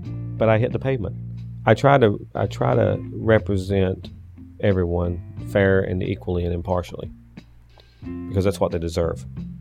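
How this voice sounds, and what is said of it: Strong Southern US accent. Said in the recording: “People up here think I have a real strong Southern accent.”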